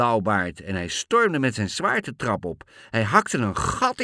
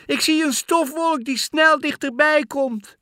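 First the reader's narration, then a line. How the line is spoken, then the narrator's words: Cheering shout. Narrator (Dutch): riep Anna juichend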